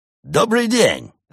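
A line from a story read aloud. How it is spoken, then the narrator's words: Cheerful exclamation. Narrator (Russian): жизнерадостно воскликнул он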